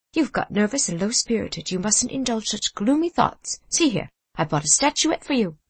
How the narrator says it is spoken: Clair, trembling as he spoke, but speaking cheerfully

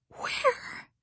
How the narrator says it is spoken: sobbed Carrie Sloane

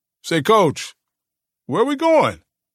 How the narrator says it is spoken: Mitch Rocker finally asked, loudly

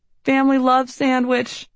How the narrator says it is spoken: a family tradition of yelling

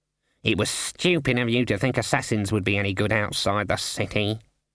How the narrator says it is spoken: muttered Cleet

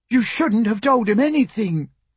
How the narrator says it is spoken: Emma cried

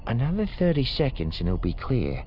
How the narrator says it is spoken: she said quietly

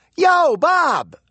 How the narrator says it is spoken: she called out

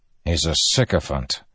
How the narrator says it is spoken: Dalinar said with a grunt

